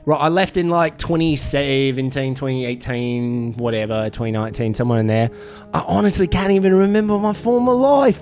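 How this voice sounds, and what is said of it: Fake-sounding Australian accent. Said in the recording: “your accent sounds very fake ... you're doing a performance of a person from Australia”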